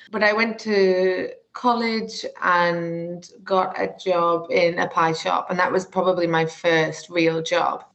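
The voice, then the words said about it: Northern English accent. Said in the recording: “I'm sure you can tell from my accent, I'm very northern”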